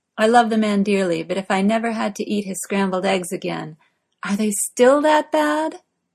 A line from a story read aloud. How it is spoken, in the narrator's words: Morgana asks, joining in the laughter